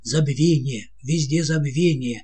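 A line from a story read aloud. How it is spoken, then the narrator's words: Dignified exclamation. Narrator (Russian): офицер воскликнул с достоинством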